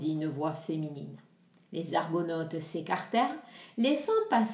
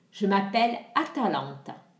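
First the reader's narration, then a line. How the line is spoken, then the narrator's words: Plain. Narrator (French): dit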